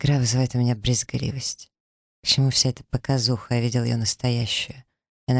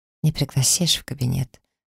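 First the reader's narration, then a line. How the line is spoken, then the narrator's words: Timid, shy. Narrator (Russian): спрашивает робко, стеснительно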